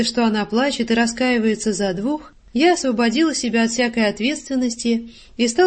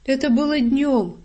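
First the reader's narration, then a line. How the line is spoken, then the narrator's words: Hesitant tearful speech. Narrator (Russian): решается произнести сквозь слезы Варенька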